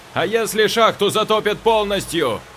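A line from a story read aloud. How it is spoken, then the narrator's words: Shouted. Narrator (Russian): крикнул Васечкин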